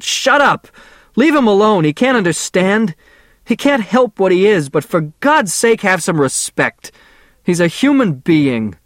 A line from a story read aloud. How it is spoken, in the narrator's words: shouted